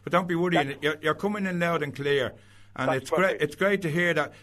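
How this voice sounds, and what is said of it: Dublin Irish accent. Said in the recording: “my Dublin accent”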